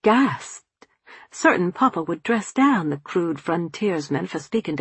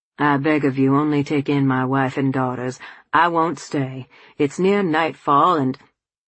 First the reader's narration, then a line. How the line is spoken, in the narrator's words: Papa calmly said